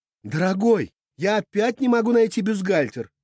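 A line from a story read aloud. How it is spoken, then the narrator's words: Shouted from another room. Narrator (Russian): крикнула из соседней комнаты Всеведа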